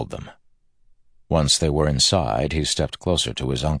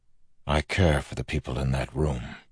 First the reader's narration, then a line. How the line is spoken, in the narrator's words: Wax said softly